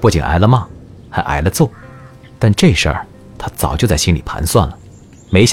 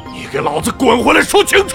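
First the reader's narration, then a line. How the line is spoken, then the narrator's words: Furious thunderous roar. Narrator (Chinese): 萧方旭一声震天吼，气急了，骂道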